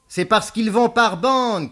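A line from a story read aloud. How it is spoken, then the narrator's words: Shouting. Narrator (French): cria Beaumasque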